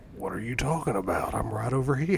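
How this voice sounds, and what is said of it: Congested gravelly impression voice. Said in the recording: “a very specific head cold that makes him do a Matthew McConaughey Batman impression”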